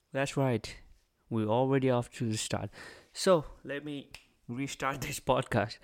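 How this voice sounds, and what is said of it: Put-on accent. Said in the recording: “where I will be talking in an accent for 10, 20, 30 minutes, however much I can, in an accent”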